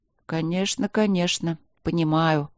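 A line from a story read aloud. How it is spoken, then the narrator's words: Touched, mumbling. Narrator (Russian): пробормотал мэр, тронутый вниманием мягкой маленькой королевы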